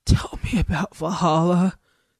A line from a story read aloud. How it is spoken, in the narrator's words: Goldie said in his treble rasp